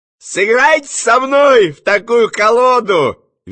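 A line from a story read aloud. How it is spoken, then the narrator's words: Cheerful request. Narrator (Russian): весело попросил кто-то в ложе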